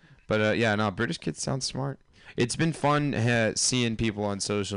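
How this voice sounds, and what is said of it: Usual voice. Nothing is said of it.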